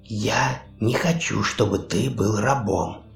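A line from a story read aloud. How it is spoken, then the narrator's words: Whispered. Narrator (Russian): прошептала Хона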